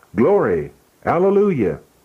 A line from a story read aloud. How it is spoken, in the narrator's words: It was awfully solemn, and at the end of every sentence the saints shouted